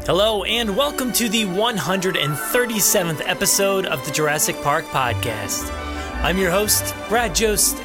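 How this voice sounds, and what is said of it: Sick, slightly out of breath voice. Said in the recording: “I was really sick this past weekend ... You can probably hear it on my voice that it sounds like I'm a little out of breath.”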